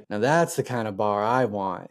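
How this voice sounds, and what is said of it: Attempted thick Boston accent. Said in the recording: “he's got like a really thick Boston accent ... I love that that was your attempt at a Boston accent ... That's more New York, isn't it?”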